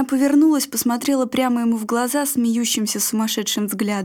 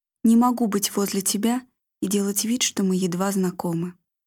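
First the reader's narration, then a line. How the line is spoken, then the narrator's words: Quiet, into her ear. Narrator (Russian): Стас тихо сказал ей на ухо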